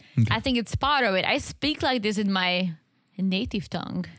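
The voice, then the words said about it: Deep, harsh-sounding foreign accent. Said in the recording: “Is my accent stronger ... Yours is very aggressive ... I have a deep voice ... Deeper than other ladies ... maybe I sound a little harsher”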